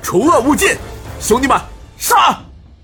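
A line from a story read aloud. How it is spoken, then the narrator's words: Loud battle cry. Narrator (Chinese): 天王星高怀文大喊一声道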